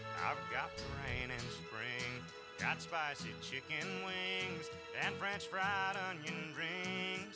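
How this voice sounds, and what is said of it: Strong Asian accent, singing. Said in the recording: “he has a very strong Asian accent”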